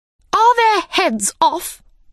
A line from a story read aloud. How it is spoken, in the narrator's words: shouted the Queen